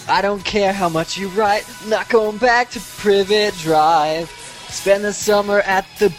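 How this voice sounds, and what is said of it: Alex Carpenter impression. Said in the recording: “my Alex Carpenter impression ... It's kind of amazing.”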